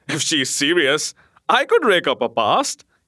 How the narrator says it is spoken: he said with a laugh

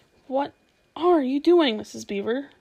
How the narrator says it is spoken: Susan exclaimed

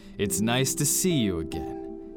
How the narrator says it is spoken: his voice boomed

